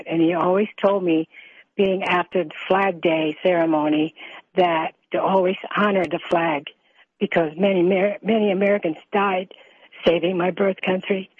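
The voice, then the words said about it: Emotional voice. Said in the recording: “Sorry if I'm getting emotional.”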